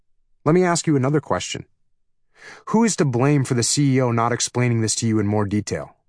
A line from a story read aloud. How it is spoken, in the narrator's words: I asked